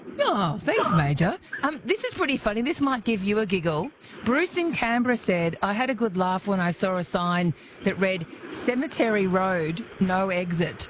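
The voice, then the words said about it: Polished radio presenter voice. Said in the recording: “You have a marvellous radio voice... I love your voice. You're great to listen to.”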